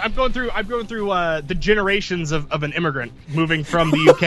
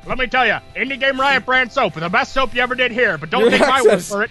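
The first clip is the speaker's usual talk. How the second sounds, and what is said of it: Old-timey announcer accent. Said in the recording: “now you sound like a TV announcer ... Your accents just go, like, you have this common theme of old-timey”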